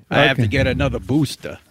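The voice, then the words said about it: Mock Brooklyn accent impression. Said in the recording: “Are you mocking Fauci's accent? ... He's from Brooklyn, New York.”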